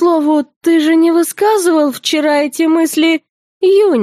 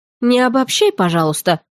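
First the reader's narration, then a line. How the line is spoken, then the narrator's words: Grumbling. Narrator (Russian): проворчала я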